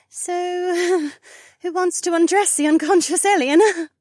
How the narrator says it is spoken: Becca asked with a nervous laugh

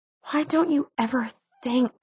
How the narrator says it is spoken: he whispered

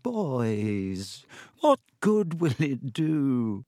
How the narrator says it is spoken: he said, his voice feeble

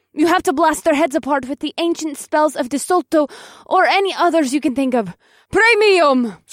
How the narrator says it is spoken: Circe screamed in a wild fury

